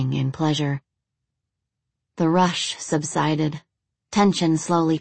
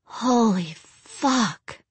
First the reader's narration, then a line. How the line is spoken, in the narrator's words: moaned Rachel, easily the loudest of the three in their shared passion